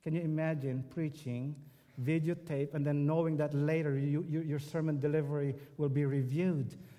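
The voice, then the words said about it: Strong Filipino accent. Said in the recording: “my accent was very strong. I mean, I still have this very strong accent ... fresh from the Philippines”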